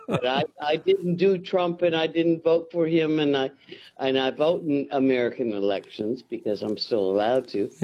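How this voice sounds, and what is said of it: American accent. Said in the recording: “having an American accent”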